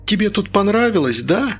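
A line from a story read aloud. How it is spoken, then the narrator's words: Angry shouting. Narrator (Russian): гневно кричала Инга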